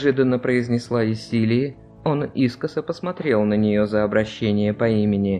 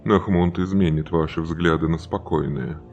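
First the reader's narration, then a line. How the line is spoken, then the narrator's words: Grim, smiling. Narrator (Russian): мрачно улыбнулся Желиман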